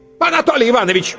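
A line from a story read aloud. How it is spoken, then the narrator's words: Barking headmistress. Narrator (Russian): рявкнула директриса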